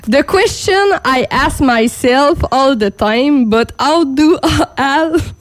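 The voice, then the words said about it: French-Canadian accent in English. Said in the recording (French): “en plus de mon accent ... mon anglais aussi est très moyen”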